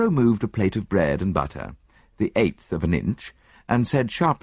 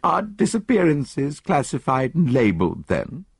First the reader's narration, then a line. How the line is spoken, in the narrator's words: I laughed